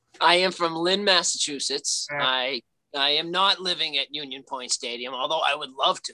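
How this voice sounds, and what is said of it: Regional accent. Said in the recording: “I can tell by the accent”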